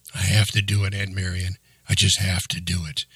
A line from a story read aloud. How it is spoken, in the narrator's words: he answered quietly